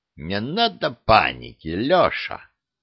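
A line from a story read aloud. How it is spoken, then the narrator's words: Insolent, raspy voice. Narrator (Russian): ответил, наглый и сиплый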